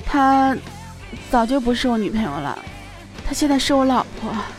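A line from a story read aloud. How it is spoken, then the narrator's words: Low hushed voice. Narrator (Chinese): 压低声音说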